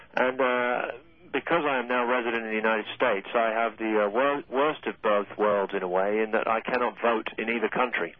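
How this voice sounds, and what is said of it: British accent. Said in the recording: “you can tell by my accent here that I'm not from these parts ... I was born and raised in Britain”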